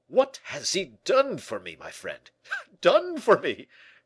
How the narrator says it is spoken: cried Porthos enthusiastically

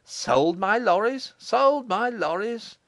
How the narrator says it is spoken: he exclaimed

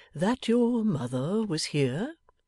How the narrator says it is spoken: timidly

